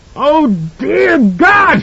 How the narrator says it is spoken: screamed

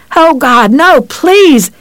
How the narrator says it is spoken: he screamed

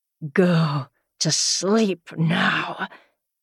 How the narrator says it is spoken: he hissed

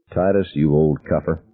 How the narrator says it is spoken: I whispered

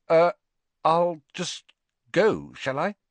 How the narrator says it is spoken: Harry stammered

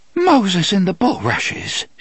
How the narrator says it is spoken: gasped

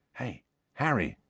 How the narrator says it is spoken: said Ron softly

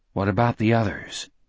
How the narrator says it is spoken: Jack asked quietly

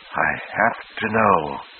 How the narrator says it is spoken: whispered

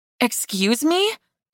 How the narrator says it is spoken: I gasped

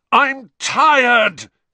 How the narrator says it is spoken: he bellowed finally after nearly half an hour

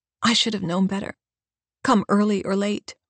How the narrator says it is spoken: Mother said

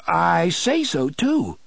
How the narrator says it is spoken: the fat man continued eagerly

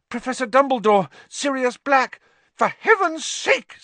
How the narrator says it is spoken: said Madame Pomfrey hysterically

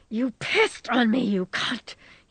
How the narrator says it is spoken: wheezed

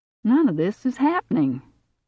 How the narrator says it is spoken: Steve said in a conversational, almost jovial tone of voice

